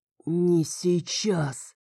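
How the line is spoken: Strained bass-like voice. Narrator (Russian): выдавила я голосом, который стал похож на бас

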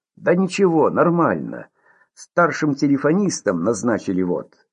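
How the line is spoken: With a snort. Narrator (Russian): хмыкнул

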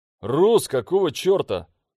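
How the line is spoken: Shout. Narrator (Russian): крикнул я

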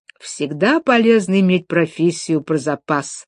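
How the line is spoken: Plain. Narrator (Russian): сказала она

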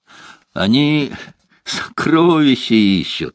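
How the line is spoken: Laughing. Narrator (Russian): засмеялся Злат

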